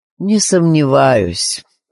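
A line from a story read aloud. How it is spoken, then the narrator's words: Joyless voice. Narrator (Russian): ответил Вальдо Винчестер таким безрадостным голосом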